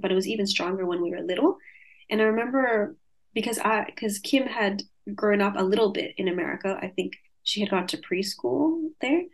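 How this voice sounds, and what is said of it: Light mixed Californian-Australian accent. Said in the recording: “not heavy Australian accent... it's almost like in the middle of a Californian and an Australian accent”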